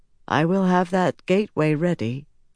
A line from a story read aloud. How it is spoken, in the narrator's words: Cadswain continued more softly